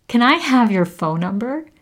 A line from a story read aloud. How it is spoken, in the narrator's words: I blurted out